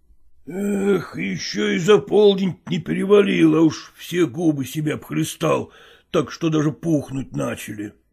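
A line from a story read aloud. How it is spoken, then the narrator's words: Muttering. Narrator (Russian): пробормотал он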